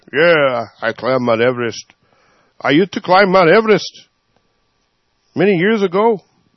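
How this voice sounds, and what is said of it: Put-on accent. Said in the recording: “That's why I changed the accent.”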